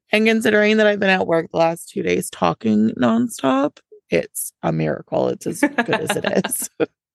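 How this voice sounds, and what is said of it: Raspy, hoarse voice that cracks. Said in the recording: “pardon the raspy voice. My coworker said it's a very sexy, sensual voice... when you laugh and you do like the softer laugh and your voice like squeaks... my voice cracks a lot”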